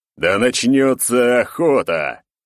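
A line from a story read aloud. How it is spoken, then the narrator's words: Booming heavenly roar. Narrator (Russian): сами небеса проревели это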